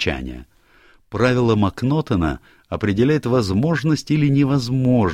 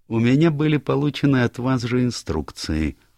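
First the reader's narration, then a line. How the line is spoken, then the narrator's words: Soothing tone. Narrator (Russian): успокаивающим тоном сказал Пуаро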